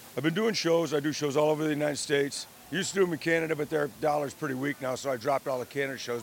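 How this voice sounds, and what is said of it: Worn, strained voice. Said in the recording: “My voice is kind of messed up from talking so much”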